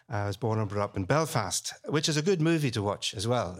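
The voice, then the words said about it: Northern Irish accent. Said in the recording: “I was brought up Presbyterian in Northern Ireland, which, by the way, is where the accent comes from”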